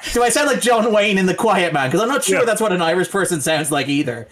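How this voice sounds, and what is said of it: Irish accent. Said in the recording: “I just want to hear that Irish mofo again ... You say the word Irish, you sound Irish.”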